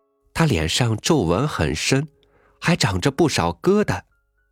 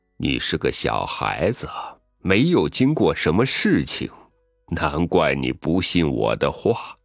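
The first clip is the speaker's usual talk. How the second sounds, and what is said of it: Dry, withered old voice. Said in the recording (Chinese): “老桑树发出干枯的声音说”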